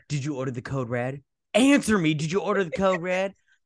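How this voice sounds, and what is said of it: Imitates another person's voice. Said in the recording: “That was my Nicholson impression.”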